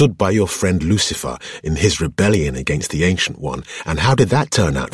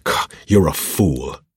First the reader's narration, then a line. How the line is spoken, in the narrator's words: Noma spat out as her anger returned, leaking out of her in a cluster of bitter words